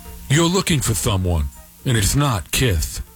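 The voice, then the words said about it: Imitates another person's voice. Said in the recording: “That's my imitation of Paul Stanley.”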